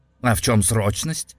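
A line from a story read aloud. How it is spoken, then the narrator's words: Irritated question. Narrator (Russian): Раздраженно спросил Женя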